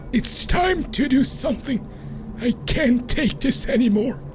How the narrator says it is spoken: harshly whispers

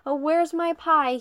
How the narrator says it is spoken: He hollers

